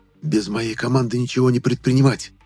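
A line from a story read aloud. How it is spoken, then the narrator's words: Stern whisper. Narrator (Russian): Строго прошептал я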